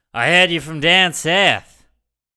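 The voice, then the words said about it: Australian accent instead of New York. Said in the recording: “in a New York accent ... which is not a New York accent ... an Australian accent”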